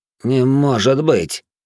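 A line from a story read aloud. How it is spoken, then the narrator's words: Bewildered. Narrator (Russian): растерянно произнес красноволосый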